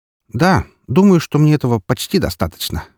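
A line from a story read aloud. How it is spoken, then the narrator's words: Snorting. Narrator (Russian): хмыкнул я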